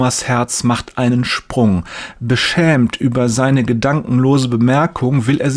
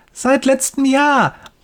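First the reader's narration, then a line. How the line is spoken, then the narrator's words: Excited boy calling. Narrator (German): ruft der Junge begeistert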